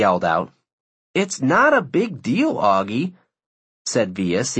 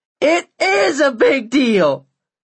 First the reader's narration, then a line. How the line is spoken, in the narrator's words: Augie screamed at the top of his lungs